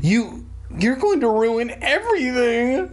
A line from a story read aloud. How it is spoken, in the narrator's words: I screamed at him